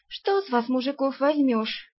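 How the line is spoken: Sighing. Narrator (Russian): вздохнула Арсана

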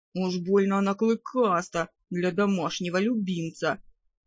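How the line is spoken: Grumbled. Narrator (Russian): проворчал парень

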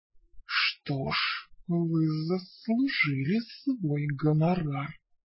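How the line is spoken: Female hiss. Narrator (Russian): прошипела она

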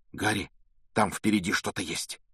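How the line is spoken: Sudden frightened whisper. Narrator (Russian): вдруг испуганным шепотом произнес Рон

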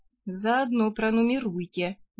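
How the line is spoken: Gloomy advice. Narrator (Russian): мрачно посоветовала я

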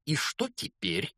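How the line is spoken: Hateful, angry question. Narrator (Russian): злобно спросила тетя Петунья, с ненавистью

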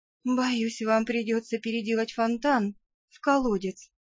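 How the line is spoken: Whisper. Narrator (Russian): прошептала я

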